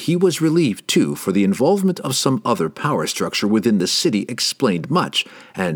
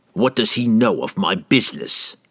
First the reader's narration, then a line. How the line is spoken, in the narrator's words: Entreri snapped, angered that someone had dared to spy on him